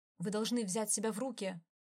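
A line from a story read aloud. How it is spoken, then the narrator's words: Bark. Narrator (Russian): рявкнул на него Джо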